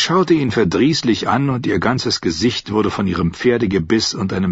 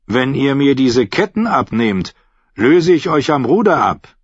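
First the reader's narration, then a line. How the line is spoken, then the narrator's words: Calling out. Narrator (German): rief er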